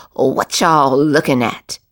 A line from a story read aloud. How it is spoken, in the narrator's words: snapped back